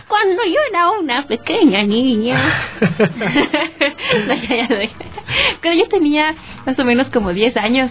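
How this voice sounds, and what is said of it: Old grandmother character voice. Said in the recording (Spanish): “me pondré voz de abuela”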